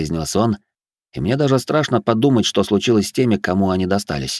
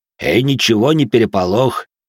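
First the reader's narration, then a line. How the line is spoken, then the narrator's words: Deep bass voice. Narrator (Russian): пробасил Жуль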